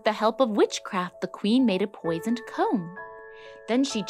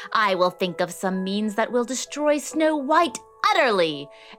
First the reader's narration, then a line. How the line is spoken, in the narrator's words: she screeched